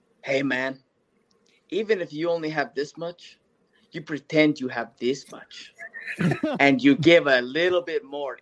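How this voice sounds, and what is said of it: Put-on old Mexican man accent. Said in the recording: “that's a solid old Mexican man accent.”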